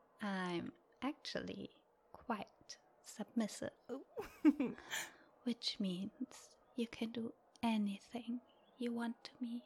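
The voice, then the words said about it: German accent. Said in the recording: “I'm here this month from Germany. With my accent”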